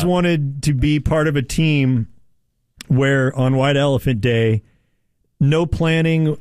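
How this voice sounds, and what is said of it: Usual voice. Nothing is said of it.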